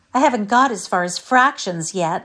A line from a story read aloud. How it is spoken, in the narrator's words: sighed Sarah